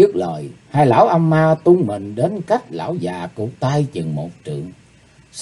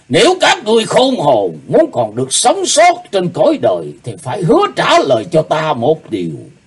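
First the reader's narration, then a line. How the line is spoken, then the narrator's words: Cold shout. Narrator (Vietnamese): Lão cụt tay lạnh lùng thét lên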